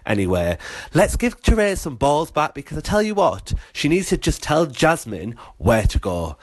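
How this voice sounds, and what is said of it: UK English accent. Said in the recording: “I love his accent ... Do all our UK listeners sound like him?”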